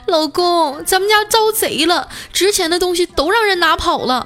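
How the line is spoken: Wife, voice near tears. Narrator (Chinese): 他媳妇儿带着哭腔说

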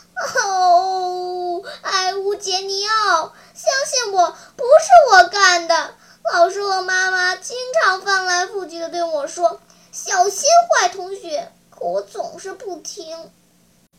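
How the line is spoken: Despairing, sobbing. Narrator (Chinese): 一面绝望的大哭，一面叫他这位同学的名字，说

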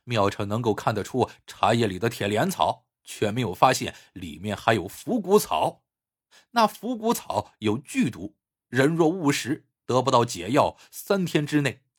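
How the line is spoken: Chuckling. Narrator (Chinese): 韩武嘿嘿一笑，说

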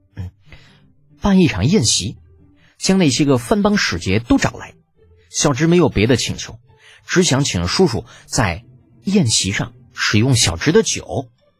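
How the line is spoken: Furtive lowered voice. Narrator (Chinese): 李浩鬼鬼祟祟的 压低声音

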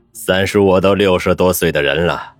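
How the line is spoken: Calm, unconcerned, smiling. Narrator (Chinese): 宋华生不以为意，淡定一笑

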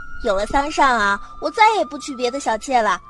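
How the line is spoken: Proud. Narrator (Chinese): 兰却拉着他到处骄傲的介绍

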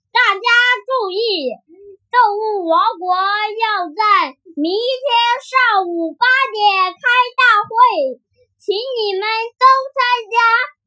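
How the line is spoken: Bear shouting through megaphone. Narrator (Chinese): 狗熊又用喇叭大声喊

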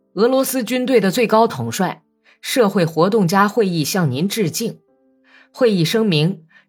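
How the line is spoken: Loud recitation. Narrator (Chinese): 卡尔梅科夫……高声朗诵道

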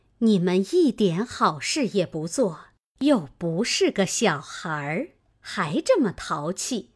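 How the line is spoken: Laughing, coaxing. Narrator (Chinese): 李纨笑劝道

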